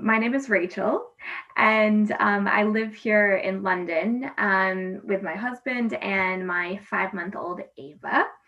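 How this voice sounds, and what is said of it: American accent. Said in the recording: “as you can tell from my accent, am American”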